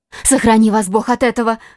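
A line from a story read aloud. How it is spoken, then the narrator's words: Young woman's alarmed exclamation. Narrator (Russian): воскликнула молодая женщина, и в голосе ее прозвучала такая тревога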